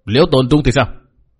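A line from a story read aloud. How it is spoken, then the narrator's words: Shouted. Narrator (Vietnamese): Mạc Nam lão ma quát bảo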